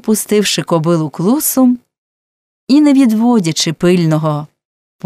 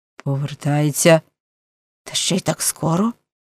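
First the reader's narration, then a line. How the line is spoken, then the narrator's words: Muttering. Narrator (Ukrainian): пробурмотів Зеб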